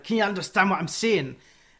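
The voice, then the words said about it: Put-on strong Stirling Scottish accent. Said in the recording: “which is how they speak in Stirling ... Stirling is like degree level Scottish accent”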